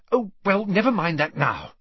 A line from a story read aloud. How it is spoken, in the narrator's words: said Hermione hastily